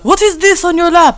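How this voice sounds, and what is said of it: Put-on foreign accent, sounds French. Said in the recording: “Again, that was a French accent of some sort.”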